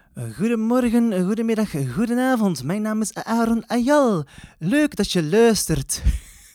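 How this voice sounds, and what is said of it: Put-on accent. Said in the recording (Dutch): “ik heb geen idee waar dat eh, accent vandaan kwam, maar ik had er even zin in”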